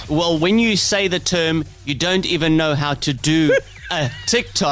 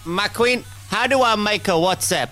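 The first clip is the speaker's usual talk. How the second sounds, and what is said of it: Imitates a mother's voice. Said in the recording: “you sound like my mother?”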